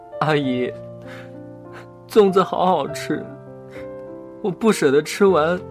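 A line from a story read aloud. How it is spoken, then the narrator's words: Crying, grieving. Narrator (Chinese): 千里奔丧的月月哭着说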